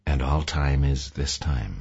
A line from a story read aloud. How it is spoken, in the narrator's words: Mavis added softly